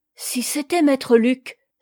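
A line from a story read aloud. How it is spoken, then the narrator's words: Sudden struck exclamation. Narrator (French): s'écria Yomi, frappée d'une idée subite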